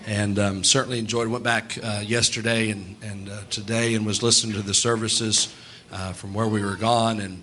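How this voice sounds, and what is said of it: Strained, not fully recovered voice. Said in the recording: “as you can tell, my voice wasn't exactly up to par... My voice still isn't 100% back to what I'd like it to be”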